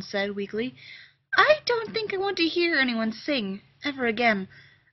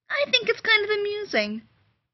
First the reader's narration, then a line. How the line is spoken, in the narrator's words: Rodney said cheerfully